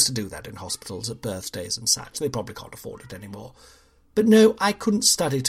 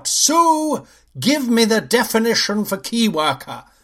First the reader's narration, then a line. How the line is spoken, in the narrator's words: In a moment of rage, I suddenly yell out